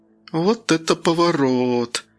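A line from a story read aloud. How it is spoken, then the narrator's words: Breathless exclamation. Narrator (Russian): выдохнула Яна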